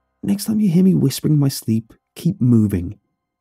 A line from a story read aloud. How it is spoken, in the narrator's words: I said, not caring if my voice sounded aggressive anymore